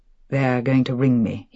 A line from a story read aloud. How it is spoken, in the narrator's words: he said quietly